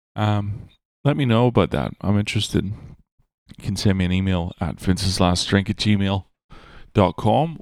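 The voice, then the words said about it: Ambiguous, hard-to-place accent. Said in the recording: “some fucking weirdo with an ambiguous accent”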